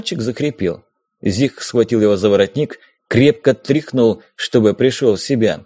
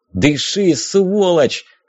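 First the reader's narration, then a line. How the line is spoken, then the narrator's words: Yell. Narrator (Russian): заорал Зиг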